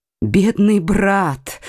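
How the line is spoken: Exclaimed. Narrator (Russian): воскликнул герцог Алансонский

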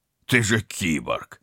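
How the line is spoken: Contemptuous snort. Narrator (Russian): презрительно фыркнул Вадим

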